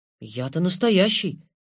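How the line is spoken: Uncertain, smiling. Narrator (Russian): неуверенно улыбнулся, сказал

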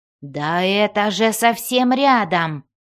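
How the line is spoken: Growled. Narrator (Russian): прорычал он

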